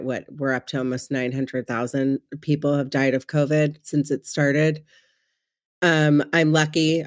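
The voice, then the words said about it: Sick-sounding voice. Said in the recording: “I got COVID. And if you can't hear it in my voice, I got really, really, really sick.”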